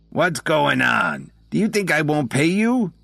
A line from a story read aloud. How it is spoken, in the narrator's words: Dominic snarled